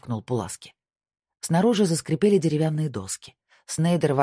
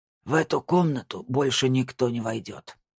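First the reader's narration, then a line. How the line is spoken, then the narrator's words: Hoarse wheeze. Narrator (Russian): прохрипел Лиман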